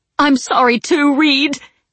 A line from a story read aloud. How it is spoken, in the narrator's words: she sobbed